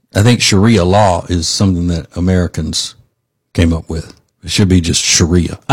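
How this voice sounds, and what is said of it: Ambiguous-sounding accent. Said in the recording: “the accent may make it seem like I am ... my accent's a little ambiguous”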